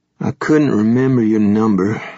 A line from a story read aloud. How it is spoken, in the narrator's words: Adam said miserably